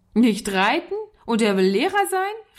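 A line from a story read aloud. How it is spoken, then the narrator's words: Laughing boy's call. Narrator (German): rief der Junge lachend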